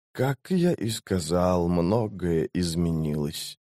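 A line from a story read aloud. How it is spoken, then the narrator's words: Quiet. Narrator (Russian): тихо сказал Крул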